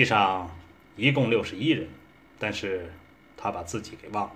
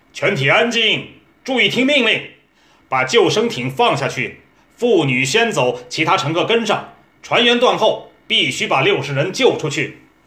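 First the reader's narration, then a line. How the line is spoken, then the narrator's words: Captain's commanding roar. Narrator (Chinese): 哈尔威船长站在指挥台上，大声吼喝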